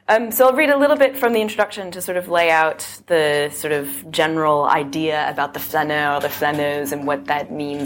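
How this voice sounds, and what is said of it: Voice hoarse and congested from cold. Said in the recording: “I have one of those, like, tragic summer colds ... My voice is, like, a little bit going in and out”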